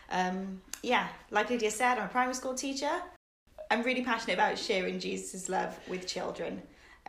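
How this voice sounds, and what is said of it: Welsh Cardiff accent. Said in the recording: “I'm originally from Cardiff. You might be able to tell from my accent”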